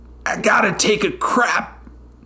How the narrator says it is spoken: said, his voice strained

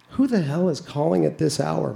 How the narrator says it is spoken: my wife mumbles

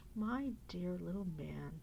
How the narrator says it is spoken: said the dragon solemnly

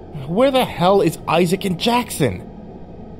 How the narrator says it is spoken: Clark yelled angrily

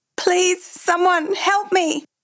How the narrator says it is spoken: Frightened, he cries out

